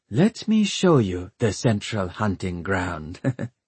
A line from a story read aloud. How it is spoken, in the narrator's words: she chuckled